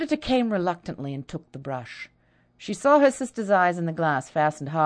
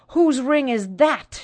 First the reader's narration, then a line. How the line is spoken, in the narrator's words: cried passionately